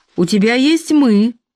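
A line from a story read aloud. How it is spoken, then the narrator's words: Jealous exclamation. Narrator (Russian): ревниво воскликнул Билл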